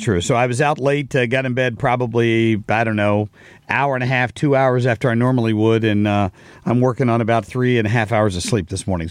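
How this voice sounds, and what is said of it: Raspy voice. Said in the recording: “My voice sounds raspy.”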